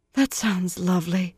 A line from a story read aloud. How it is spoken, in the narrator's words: Moiraine breathed